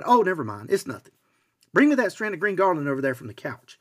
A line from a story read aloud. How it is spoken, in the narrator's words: Feeling completely flushed, hot, and embarrassed, Julia quickly replied